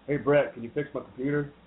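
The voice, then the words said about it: Poor imitation of another person's voice. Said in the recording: “That's a terrible Shaq. If Charles Barkley was here, he'd say that was just terrible.”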